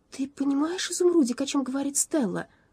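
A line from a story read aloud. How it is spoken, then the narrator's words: Agitated. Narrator (Russian): взволнованно произнесла она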